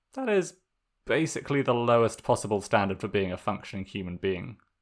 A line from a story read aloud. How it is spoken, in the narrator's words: Zuko said, chuckling